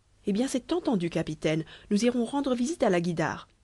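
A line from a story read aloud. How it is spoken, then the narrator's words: Exclaiming. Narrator (French): s'écria Nedjeb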